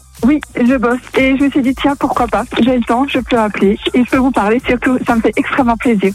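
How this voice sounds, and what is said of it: Alsatian French accent. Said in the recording (French): “t'es alsacienne, non ... j'ai reconnu un peu l'accent ... c'est vrai qu'on l'entend assez bien”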